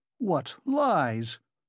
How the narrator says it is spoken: he cried impudently

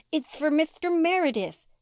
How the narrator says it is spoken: she lisped

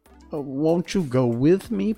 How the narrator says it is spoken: pleaded the girl

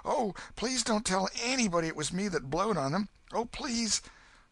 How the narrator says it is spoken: exclaimed

